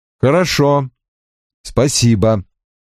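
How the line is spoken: Cold reply. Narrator (Russian): холодно ответил я

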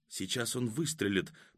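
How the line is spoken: Whisper. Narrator (Russian): прошептала Катя

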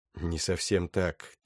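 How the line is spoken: Quiet. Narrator (Russian): тихо ответила Аганес

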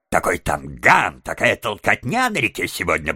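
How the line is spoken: Grumbling. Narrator (Russian): проворчал мистер Выдра

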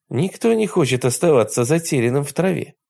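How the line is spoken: Cheerful boy's exclamation. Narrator (Russian): весело воскликнул мальчишка

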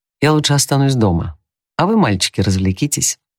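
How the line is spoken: Forced cheerfulness. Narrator (Russian): сказала она и попыталась весело улыбнуться

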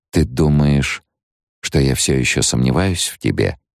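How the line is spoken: Soft question. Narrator (Russian): мягко спросила Джессика

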